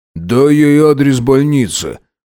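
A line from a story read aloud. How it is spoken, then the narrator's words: Grumbled. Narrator (Russian): проворчал Макс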